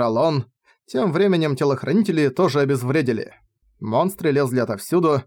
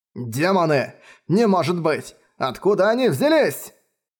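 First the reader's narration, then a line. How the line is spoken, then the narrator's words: Screaming. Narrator (Russian): Завопил Хейкрафт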